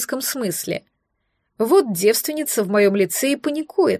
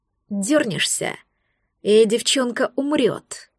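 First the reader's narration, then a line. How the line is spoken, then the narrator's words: Hissed threat near ear. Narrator (Russian): процедили у меня рядом с ухом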